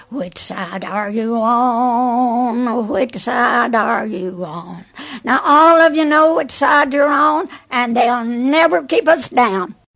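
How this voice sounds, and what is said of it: East Tennessee accent, singing. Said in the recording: “Love that East Tennessee accent there”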